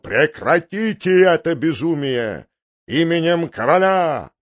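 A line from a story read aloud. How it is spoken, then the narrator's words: Thundering voice. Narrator (Russian): он прогремел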